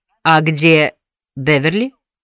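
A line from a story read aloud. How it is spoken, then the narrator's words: Plain question. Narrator (Russian): спросила Мими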